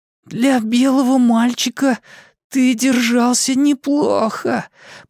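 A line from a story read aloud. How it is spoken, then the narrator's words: Wheezy rasp. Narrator (Russian): просипел Майк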